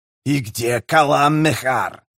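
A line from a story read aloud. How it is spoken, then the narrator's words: Hissed. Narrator (Russian): прошипел Камист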